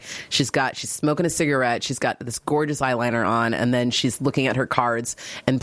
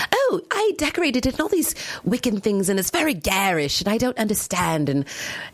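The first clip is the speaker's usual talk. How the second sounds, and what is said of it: Deliberately bad English accent. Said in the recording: “Trish is very proper and she's from England. So I'll do my terrible accent for you.”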